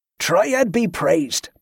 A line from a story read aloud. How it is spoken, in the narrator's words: Barza called out to the others